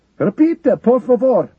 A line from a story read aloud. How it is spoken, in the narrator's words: the soldier shouted